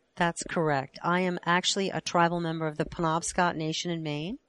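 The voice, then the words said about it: Northeastern US accent. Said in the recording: “you have an interesting accent. Although you're based in Oklahoma City, it sounds more like something from the Northeast.”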